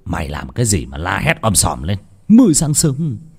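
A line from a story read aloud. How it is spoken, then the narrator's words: Sleepy, angry shout. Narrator (Vietnamese): Ông Phát ngái ngủ mà quát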